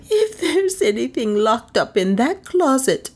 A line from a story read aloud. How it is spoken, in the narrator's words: she whimpered